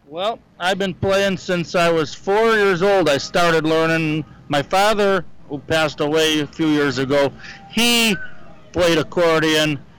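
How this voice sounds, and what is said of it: Slight European-sounding accent. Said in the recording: “a little bit of an accent ... I've been told that I talk like a European”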